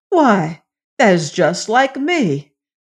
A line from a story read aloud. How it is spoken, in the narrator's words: cried the youth